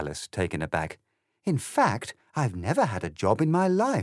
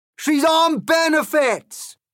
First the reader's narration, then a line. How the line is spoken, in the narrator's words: cried the cock, such was his excitement